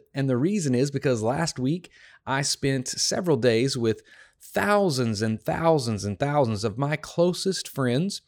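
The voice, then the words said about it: Hoarse, partly lost voice. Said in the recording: “as you can probably tell if you've been listening to the podcast at all, I've lost my voice just a little bit”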